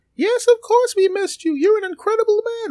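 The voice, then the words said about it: High-pitched put-on voice. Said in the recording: “a truckload of people all speak with one high voice. Okay, that was me.”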